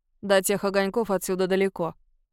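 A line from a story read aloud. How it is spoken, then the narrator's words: Grumbled. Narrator (Russian): буркнула Катерина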